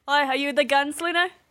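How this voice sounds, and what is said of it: Weak put-on accent, maybe Australian. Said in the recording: “not a good accent ... Is it Australian, if I might ask?”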